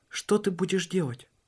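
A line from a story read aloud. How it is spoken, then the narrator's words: Soft and quiet. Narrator (Russian): он мягко и тихо произнес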